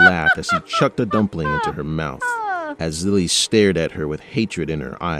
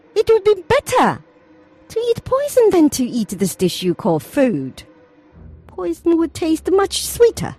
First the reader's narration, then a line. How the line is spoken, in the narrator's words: said with a cackle